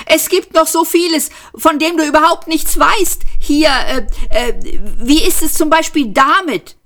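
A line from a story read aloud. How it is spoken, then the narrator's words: Called out. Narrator (German): rief er dem Posten zu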